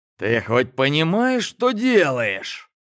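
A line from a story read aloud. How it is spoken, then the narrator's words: Spiteful. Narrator (Russian): злобно продолжил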